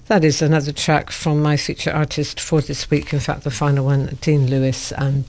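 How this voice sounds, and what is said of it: Croaky, tired voice. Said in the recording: “I've got a bit of a frog in my throat... So I'm sounding a bit croaky this morning... a bit croaky, a bit tired”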